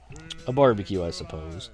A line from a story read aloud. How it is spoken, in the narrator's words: He took a bite of hash browns and mumbled